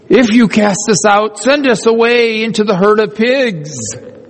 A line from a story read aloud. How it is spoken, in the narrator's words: the demons begged them, saying